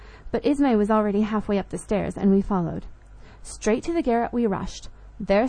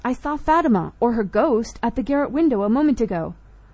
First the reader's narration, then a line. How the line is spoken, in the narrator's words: cried Max